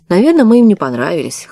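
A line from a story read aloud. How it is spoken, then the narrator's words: Snorting chuckle. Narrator (Russian): хмыкнул Полуянов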